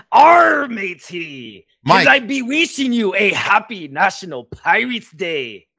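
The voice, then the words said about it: Pirate voice. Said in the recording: “is going to go pirate immediately”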